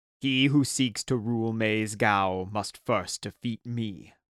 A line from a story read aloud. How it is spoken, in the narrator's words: boomed the strange knight